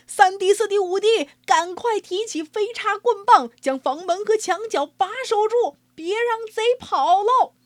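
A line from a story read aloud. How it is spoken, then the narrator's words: Noisy clamor. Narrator (Chinese): 闹闹嚷嚷地说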